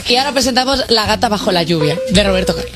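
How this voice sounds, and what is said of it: Radio announcer voice. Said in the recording (Spanish): “tengo voz de locutor. ... Como locutor de radio.”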